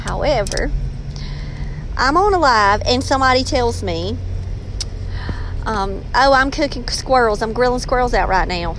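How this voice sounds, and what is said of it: Robeson County regional accent. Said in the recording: “they start joking my accent ... I'm from Robeson County, and the more passionate I get about a subject, the more slang I can become ... I used to apologize for my voice ... I do try to tone it down a little bit”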